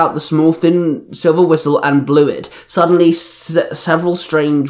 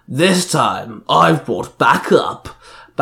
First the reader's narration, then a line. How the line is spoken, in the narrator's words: Banjin sneered